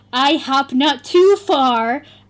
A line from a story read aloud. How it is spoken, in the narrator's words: I shouted angrily